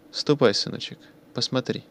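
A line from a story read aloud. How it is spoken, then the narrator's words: Soft instruction, woman. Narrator (Russian): мягко распоряжается одна из женщин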